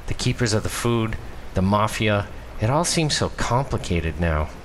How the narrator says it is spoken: sigh

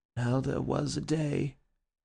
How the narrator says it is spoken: murmured Bull, who seemed really to have fallen asleep

